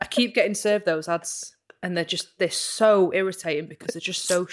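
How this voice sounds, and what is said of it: Usual voice. Nothing is said of it.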